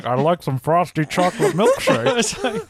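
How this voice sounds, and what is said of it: Cartoon character voice impression. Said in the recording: “weird voice ... doing like Homer Simpson ... I don't have a Homer voice ... That's the Walter Matthau Homer”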